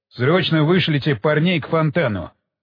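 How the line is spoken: Sharp command. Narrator (Russian): резким тоном приказал Уилсон

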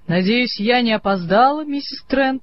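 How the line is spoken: Cheerful. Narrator (Russian): сказала она бодро

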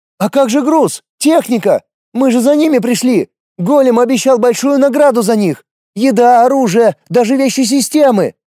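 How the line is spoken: Screaming young woman. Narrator (Russian): завопила девка-магичка

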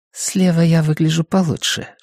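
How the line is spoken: Whisper. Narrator (Russian): шепнула она

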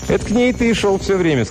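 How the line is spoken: Plain. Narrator (Russian): сказал Итакин

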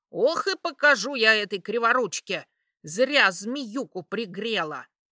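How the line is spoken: Hissing market woman. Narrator (Russian): шипела торговка

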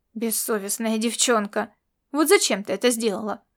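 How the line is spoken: Grumbling. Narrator (Russian): проворчал Ласло

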